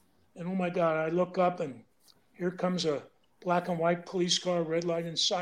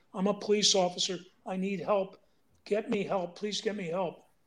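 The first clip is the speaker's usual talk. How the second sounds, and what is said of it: Screamed plea for help. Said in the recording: “I'm screaming,”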